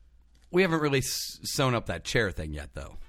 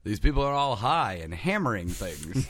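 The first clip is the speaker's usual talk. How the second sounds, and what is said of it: Imitates another person's voice. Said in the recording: “That's my best Alec Guinness impression.”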